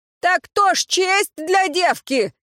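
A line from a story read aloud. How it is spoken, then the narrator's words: Shouted. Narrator (Russian): выкрикнул светловолосый парень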